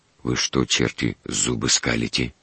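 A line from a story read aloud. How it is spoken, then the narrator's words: Low-voiced question. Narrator (Russian): вполголоса спросил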